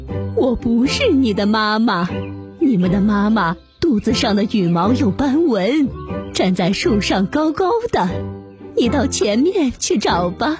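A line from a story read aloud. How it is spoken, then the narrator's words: Laughing hen. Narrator (Chinese): 母鸡笑着说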